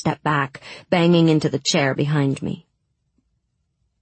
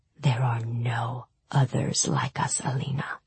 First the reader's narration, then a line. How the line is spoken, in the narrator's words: he whispered